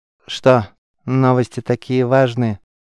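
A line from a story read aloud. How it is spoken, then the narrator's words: Bored question. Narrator (Russian): скучающим тоном спросил игрок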